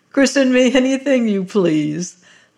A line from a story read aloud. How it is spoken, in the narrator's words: laughed the harvester